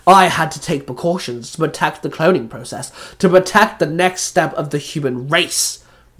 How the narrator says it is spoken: the doctor snapped

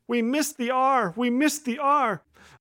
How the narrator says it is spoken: banging his head against the wall and wailing

